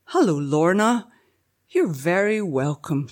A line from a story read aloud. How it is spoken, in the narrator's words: she said, smiling warmly